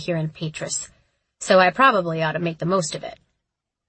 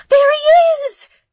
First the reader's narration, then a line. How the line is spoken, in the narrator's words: gasped one of the women through the deafening applause